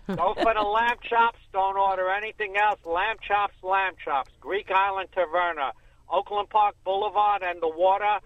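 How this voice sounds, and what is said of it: New York accent. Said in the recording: “I'm from New York ... We couldn't tell from the accent.”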